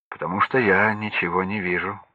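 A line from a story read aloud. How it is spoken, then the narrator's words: Plain. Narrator (Russian): ответил Сергей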